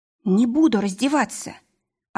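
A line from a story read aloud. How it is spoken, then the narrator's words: Trembling voice. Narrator (Russian): ответила дрожащим голосом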